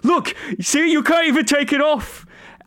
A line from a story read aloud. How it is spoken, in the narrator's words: He starts yelling